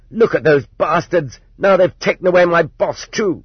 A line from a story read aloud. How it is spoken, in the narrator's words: The merchandise manager shouted